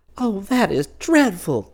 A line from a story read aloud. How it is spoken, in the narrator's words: exclaimed Twinkle